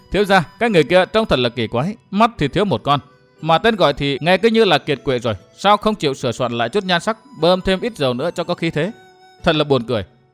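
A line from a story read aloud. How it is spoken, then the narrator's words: Clear laugh, innocent tone. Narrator (Vietnamese): Tiểu Văn bật cười lanh lảnh nói với giọng rất hồn nhiên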